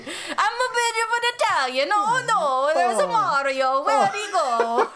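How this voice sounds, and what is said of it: Bad Russian accent drifting Italian. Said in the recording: “I'm really bad at Russian ... I feel like I go a little Italian in with my Russian accent”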